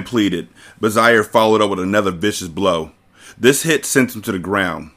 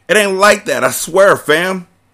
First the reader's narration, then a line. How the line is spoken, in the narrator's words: the man hollered